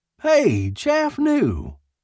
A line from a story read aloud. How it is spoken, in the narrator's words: Curly paused and called out